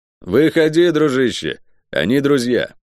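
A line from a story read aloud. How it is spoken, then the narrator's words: Loud. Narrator (Russian): громко сказал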